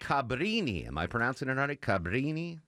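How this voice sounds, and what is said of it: Put-on Italian accent. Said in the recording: “I was using my Italian accent ... it was a beautiful Italian accent”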